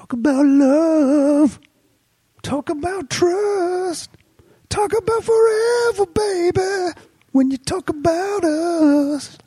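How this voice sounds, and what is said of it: Sings imitating another person's voice. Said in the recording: “my Michael Bolton impression ... It's not bad.”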